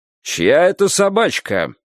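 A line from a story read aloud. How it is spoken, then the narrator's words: Menacing question. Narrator (Russian): грозно спросил Фаэтончик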